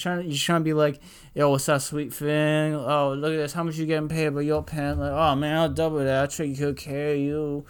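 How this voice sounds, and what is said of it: Put-on slurring accent. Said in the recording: “I could have taken without the accent ... that was my slur accent.”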